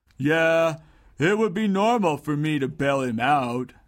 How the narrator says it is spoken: responded Dungo sullenly

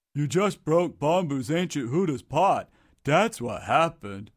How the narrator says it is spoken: grunted Dungo with his mouth full of food

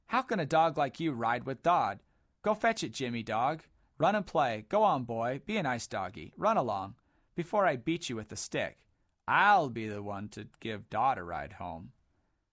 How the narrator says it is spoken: Sob called out

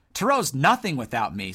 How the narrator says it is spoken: snapped Sir Lonk, losing his cool

